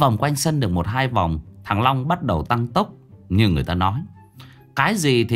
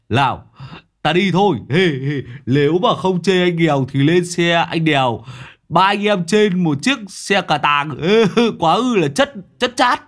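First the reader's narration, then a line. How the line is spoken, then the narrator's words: Yelled while pedaling. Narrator (Vietnamese): Thằng Long đầu đất vừa đạp vừa gào lên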